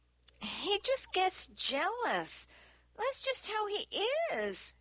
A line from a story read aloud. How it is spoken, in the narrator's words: she said in a tiny voice